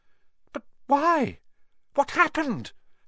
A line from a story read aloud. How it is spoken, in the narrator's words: Harry asked urgently